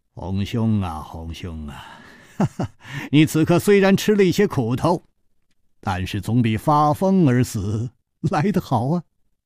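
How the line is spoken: Laughing. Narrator (Chinese): 张啸林笑道

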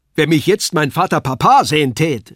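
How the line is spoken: Calling out. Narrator (German): rief er

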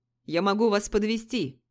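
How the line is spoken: Shouting. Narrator (Russian): крикнул мне Юсупов

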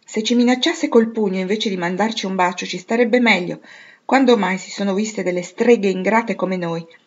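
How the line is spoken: Exclaimed with odd pleasure. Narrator (Italian): esclamò Joe, a cui la strada fangosa e il vento tagliente davano quasi una specie di piacere

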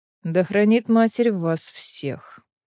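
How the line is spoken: Very serious repetition. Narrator (Russian): предельно серьезным голосом повторил

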